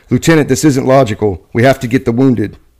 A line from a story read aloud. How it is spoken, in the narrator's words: Brown shouted